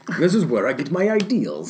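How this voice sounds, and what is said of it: Attempted Spanish accent, sounding Russian. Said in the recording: “He does my fucking accent. He's Spanish, right? ... Yeah, but that sounded Russian, though.”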